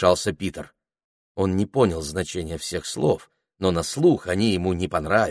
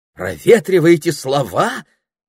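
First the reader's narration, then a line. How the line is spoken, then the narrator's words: Exclamation. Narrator (Russian): воскликнул Саймон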